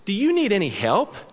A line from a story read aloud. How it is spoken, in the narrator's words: she asked brightly